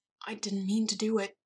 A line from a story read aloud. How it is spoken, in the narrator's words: Edward said faintly